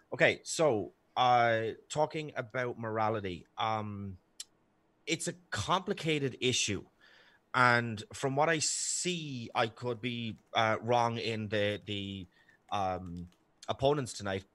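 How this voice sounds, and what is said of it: Irish accent. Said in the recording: “my sexy Irish accent.”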